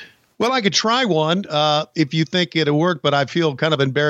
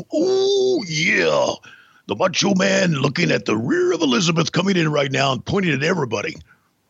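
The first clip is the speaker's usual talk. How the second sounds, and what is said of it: Imitates a wrestler's gravelly promo voice. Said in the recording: “your best Macho Man impression ... Do you have a Macho Man impression in you?”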